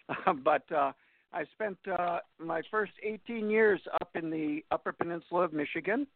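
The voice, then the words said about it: Upper Michigan accent. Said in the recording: “I'm a Uper from the UP, the Upper Peninsula of Michigan. You could tell that, by the way, did I talk sometime? You know, hey, you betcha. There's a particular kind of accent for those people up there”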